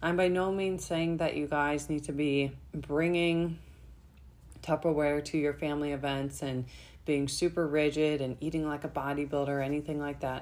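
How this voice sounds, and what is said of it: Hoarse, fading voice. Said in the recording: “losing my voice here from my cold”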